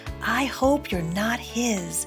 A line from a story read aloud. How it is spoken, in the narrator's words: she whispered